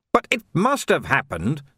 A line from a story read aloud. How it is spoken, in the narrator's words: snapped Vimes